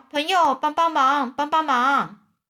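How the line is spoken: Shouting while running. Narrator (Chinese): 两个人…一边跑一边叫

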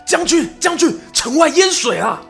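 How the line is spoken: Urgent shout. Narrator (Chinese): 士兵 连忙 大喊

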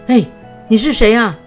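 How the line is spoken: Called-out question. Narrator (Chinese): 猎人们向她喊话，就问她说

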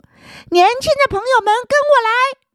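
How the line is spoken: Loud call. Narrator (Chinese): 高声一呼

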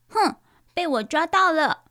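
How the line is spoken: Loud shout. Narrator (Chinese): 糟糟大叫着

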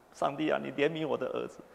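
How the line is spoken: Loud crying, praying. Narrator (Chinese): 牧师娘 大哭

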